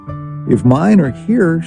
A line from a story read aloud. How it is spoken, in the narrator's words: she moaned in despair